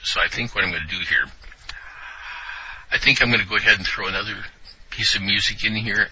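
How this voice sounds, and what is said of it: Strained, worn-out voice. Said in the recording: “my voice is starting to get ready to give out ... the throat's about ready to give here”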